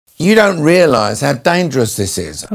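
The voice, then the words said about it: Imitates another person's voice. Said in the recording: “you do a fantastic Michael Caine impression.”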